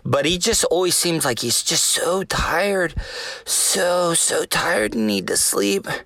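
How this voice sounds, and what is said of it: Very slow, tired-sounding speech. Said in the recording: “That's why I'm talking so slow.”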